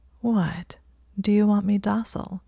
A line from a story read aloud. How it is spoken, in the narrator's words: asked, her voice thick with arousal